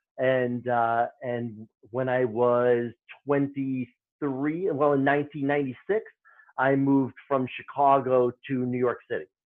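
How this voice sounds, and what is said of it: Chicago Midwestern accent. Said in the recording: “I'm originally from Chicago. I'm a Midwesterner. ... That's where my accent is.”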